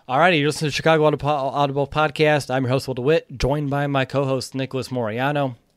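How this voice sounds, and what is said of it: Slightly hoarse, fading voice. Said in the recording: “I'm slightly losing my voice”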